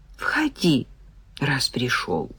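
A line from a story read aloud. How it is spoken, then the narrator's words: Sighing, soft. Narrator (Russian): Майя вздохнула и промолвила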